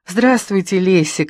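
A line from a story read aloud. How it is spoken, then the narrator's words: Joyful. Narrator (Russian): радостно сказала Маруся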